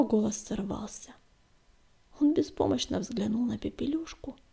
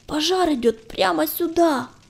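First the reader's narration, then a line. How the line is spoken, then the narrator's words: Hoarse shout. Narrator (Russian): хрипло закричал он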